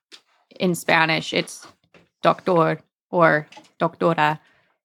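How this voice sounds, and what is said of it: Spanish words in an American accent. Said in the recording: “Don't make fun of my gringo accent.”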